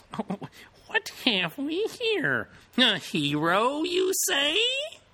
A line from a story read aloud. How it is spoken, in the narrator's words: In a squeaky little voice, the tiny elder required